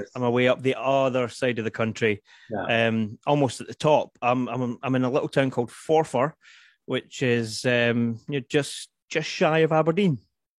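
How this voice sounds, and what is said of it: Regional accent, not from London. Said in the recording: “I'm guessing from your accent that you're not in Hackney like me.”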